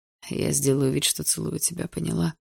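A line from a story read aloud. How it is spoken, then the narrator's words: Barely audible question. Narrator (Russian): Едва слышно спросил Барс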